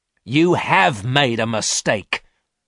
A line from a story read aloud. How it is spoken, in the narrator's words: repeated angrily